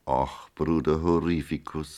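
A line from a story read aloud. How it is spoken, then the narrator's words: Plain. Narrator (German): sagte Maria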